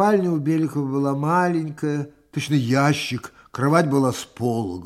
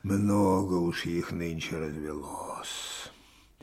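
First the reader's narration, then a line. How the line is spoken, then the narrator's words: Muttering with deep sigh. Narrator (Russian): Этот Афанасий всегда бормотал одно и то же с глубоким вздохом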